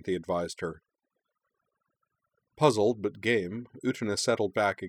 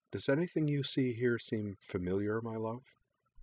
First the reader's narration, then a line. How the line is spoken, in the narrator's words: Anthy prompted quietly